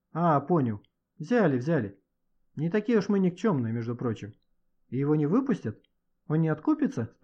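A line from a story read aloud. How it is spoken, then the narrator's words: Plain. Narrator (Russian): спросил Саша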